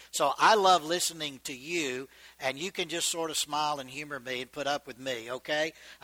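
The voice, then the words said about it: Mixed Georgian and Texan Southern accent. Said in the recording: “my accent is a combination of Georgian and Texan, really intertwined. It's a little strange”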